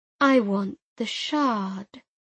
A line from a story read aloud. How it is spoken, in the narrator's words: she said slowly, as if talking to a simpleton